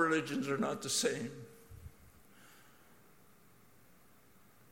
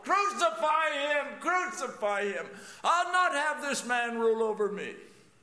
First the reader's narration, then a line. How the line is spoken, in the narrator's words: I shouted with the crowd